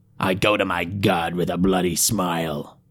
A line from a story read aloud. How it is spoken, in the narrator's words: growled the priest